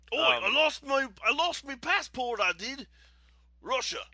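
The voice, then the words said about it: Weak attempt at a Russian accent. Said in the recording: “I can't do Russian accents. ... I can't do it either.”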